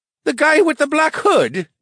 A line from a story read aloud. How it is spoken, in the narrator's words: one of the shopkeepers called out